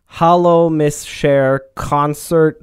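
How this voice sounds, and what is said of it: Put-on Czech accent. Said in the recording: “I'm going to read this with the accent that the letters tell me it is in”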